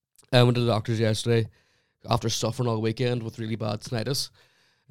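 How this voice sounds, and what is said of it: Rough, crackly sick voice. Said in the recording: “You can actually tell by my voice... That my voice is a wee bit, you know. Would I say cackly? Yeah, it's a bit rough. Like I don't sound myself at all.”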